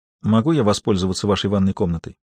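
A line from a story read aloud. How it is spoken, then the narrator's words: Quiet, humble question. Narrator (Russian): она тихо, почти смиренно спросила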